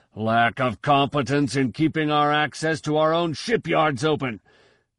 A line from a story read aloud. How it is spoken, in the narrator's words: Koyan roared